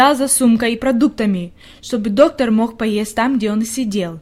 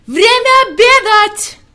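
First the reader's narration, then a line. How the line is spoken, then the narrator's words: Shouting at full force. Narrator (Russian): Он изо всех сил закричал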